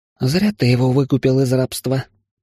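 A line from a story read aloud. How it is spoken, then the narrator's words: Sighing female partner. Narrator (Russian): вздохнула напарница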